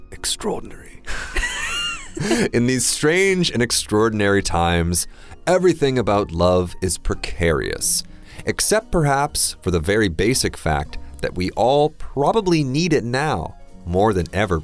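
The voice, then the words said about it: Charming put-on British accent. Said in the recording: “Can I、do it with a bad British accent? ... Charming 一点。 ... 你学一下 Tom Hiddleston 抖森上身。”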